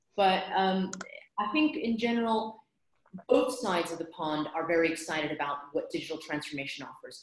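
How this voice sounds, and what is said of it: American accent. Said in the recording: “by my accent, you can tell that I'm American”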